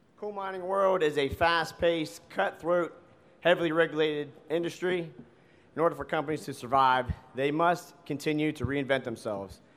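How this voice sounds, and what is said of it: Worn, strained voice. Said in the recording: “I apologize for my voice. ... I tend to yell at my guys a lot”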